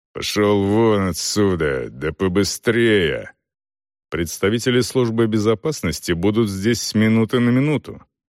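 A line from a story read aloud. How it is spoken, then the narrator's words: Heavy accent, through teeth. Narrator (Russian): С жутким акцентом, Селдон не успел понять, откуда этот мужлан был родом, тот процедил сквозь зубы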